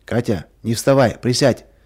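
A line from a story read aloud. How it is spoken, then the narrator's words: Angry command. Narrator (Russian): сердито приказал ей Вася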